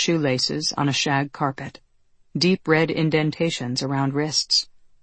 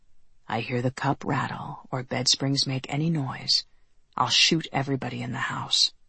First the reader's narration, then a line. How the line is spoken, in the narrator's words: he whispered